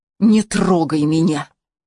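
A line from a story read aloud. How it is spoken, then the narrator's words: Angry whisper. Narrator (Russian): зло прошептала Хелена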